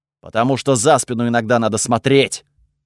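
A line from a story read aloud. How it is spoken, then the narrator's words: Barking. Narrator (Russian): рявкнул тот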